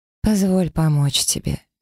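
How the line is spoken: Gentle but insistent. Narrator (Russian): мягко, но настойчиво произнесла я

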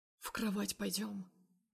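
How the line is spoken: Heavy-breathing hoarse whisper. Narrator (Russian): Дышит тяжело, хрипло шепчет

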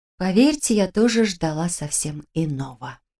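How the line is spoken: Whispered. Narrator (Russian): прошептала я

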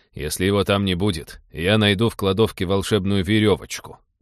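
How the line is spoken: Grumbling. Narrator (Russian): проворчал капитан

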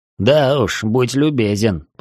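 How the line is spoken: Grumble. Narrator (Russian): пробурчал Веснин

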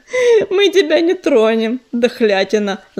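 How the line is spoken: Laughing. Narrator (Russian): засмеялся он

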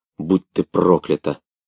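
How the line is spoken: Hoarse wild fury. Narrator (Russian): хрипло выговаривала она с дикой яростью

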